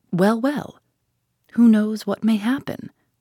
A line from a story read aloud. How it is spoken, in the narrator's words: said Mr